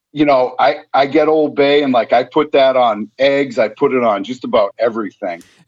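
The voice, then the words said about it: Thick New England accent. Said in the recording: “I'm from New England, if you can't tell from my super thick accent.”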